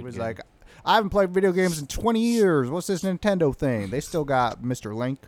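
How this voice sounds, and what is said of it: Imitates another person's voice. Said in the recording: “That's my impression of a”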